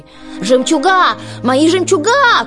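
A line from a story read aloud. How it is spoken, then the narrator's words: Crying out. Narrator (Russian): крикнула Анастасия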